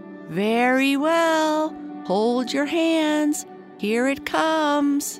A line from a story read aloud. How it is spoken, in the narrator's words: Tom called out as loud as he could